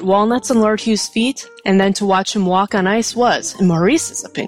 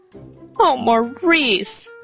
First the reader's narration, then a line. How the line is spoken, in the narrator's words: almost sobbed